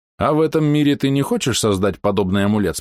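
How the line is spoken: Plain. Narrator (Russian): спросил Тихол

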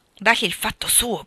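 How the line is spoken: Whispering. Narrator (Italian): bisbigliò Lori a Joe

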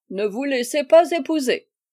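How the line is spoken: Deep bellow. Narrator (French): Le général, du fond de son fauteuil, mugit d'une voix profonde

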